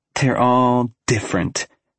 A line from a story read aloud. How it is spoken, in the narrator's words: she scoffs